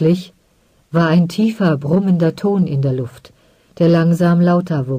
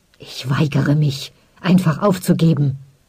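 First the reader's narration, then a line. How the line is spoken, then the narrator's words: Angry hiss. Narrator (German): zischte Onnen wütend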